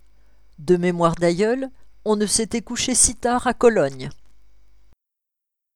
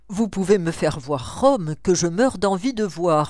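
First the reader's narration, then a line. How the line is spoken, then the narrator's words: Plain. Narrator (French): me répondit-il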